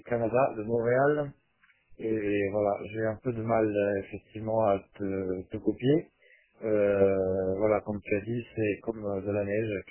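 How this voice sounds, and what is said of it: Italian accent speaking French. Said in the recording (French): “tu as entendu que j'ai un accent, hein, sûrement ... Je suis italien, donc mais bon, en France depuis 25 ans”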